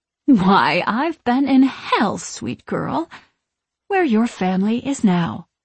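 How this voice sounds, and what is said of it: Needling villainous witch voice. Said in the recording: “in a needling voice”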